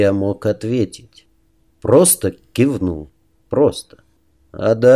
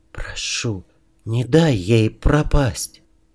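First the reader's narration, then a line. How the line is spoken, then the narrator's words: Hurried whisper. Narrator (Russian): перед казнью успев шепнуть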